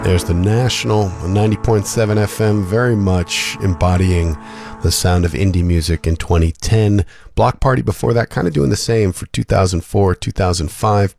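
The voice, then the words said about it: Sick, strained speaking voice. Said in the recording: “my voice is a little under the weather, so I'm going to rest it now”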